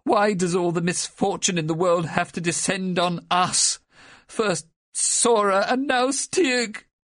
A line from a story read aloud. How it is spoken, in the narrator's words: she wailed, blowing her nose